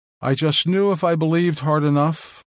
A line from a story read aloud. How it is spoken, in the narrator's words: she said